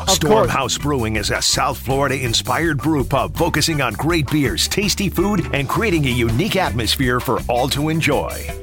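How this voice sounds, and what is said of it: Deep announcer-style voice. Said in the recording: “deep voice.”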